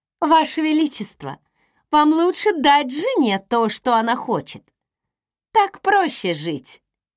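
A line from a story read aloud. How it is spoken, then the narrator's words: Laughing. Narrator (Russian): Кагал рассмеялся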